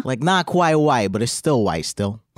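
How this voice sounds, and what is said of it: Put-on Italian accent. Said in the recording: “a Brooklyn accent? ... That was an Italian accent. ... It also sounds Brooklyn.”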